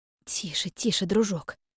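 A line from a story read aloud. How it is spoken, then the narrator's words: Soft whisper. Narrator (Russian): прошептала она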